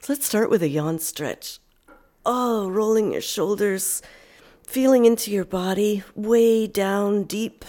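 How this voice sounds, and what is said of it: Voice with a cold. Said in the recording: “Even as I have this cold, what does my voice feel like? Kind of echoey and hollow in my head.”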